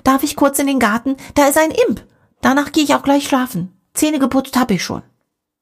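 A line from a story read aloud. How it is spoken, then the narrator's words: Calling through a door. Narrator (German): ruft Dimi durch die Tür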